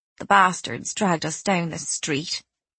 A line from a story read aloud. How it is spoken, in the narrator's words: she said tightly